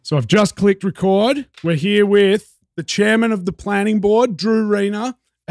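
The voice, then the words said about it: Foreign accent, vowels pronounced differently. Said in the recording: “It can be funny with my accent. We say vowels differently.”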